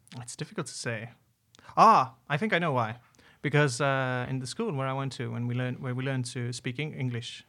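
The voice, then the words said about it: Slight British-tinged English accent. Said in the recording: “you have a strange accent. ... You have a slight British twinge to your accent.”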